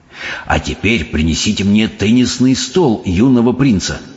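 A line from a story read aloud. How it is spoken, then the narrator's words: Whispered. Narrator (Russian): прошептал мистер Типс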